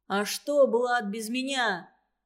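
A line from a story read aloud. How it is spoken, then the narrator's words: Shouted out. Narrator (Russian): выкрикнул Шитов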